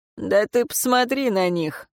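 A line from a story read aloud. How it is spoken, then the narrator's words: Snorting. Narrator (Russian): фыркнул Динкейр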